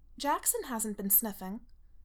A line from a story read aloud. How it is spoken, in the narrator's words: Allison says sharply